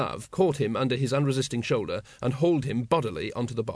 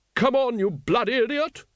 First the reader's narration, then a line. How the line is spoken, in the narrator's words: A furious vision in padded leather, gauntlets, tiara, and 30 yards of damp pink tulle leaned towards him and screamed